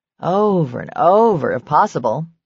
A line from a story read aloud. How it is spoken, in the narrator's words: Julie said wistfully